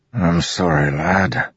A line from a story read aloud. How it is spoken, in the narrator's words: Teft mumbled, eyes glassy